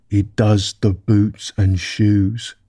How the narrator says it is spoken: the Gryphon replied very solemnly

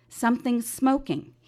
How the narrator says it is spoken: he says

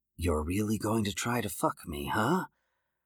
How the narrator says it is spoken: Joseph whispered

